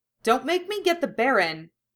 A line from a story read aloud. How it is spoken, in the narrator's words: Hermione shouted